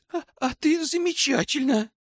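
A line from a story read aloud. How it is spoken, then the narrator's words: Declared between sobs. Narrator (Russian): заявила между всхлипами и приступами рева Селена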